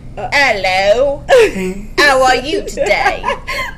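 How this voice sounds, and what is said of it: Strong put-on British accent. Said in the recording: “Well, close, but really strong British. ... That's a really great accent.”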